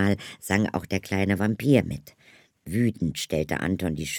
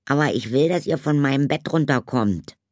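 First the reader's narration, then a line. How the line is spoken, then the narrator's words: Growl. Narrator (German): knurrte Anton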